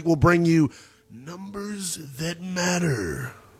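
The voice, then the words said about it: Big booming announcer voice. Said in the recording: “That was my big voice guy impersonation.”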